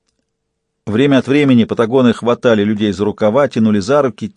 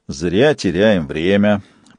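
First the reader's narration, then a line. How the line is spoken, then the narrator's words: Grumble. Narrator (Russian): проворчал Фист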